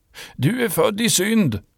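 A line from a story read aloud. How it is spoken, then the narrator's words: Shouted. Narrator (Swedish): ropade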